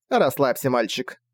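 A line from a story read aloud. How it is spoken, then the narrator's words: Witch's dismissive snort. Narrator (Russian): пренебрежительно фыркнула ведьма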